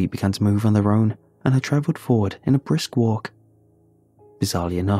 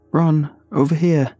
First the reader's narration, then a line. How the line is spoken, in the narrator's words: I called out